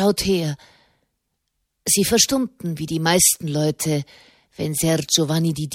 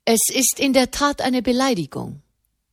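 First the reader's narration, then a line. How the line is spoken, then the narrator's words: Plain. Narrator (German): sagte Di Dini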